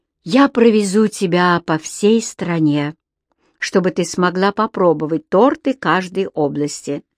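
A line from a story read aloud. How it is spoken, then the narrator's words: Plain. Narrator (Russian): сказал Кэмерон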